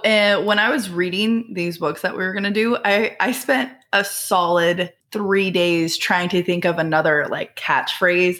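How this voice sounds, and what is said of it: Scratchy voice. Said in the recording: “I'm catching the bug that everybody is getting, so if my voice is scratchy”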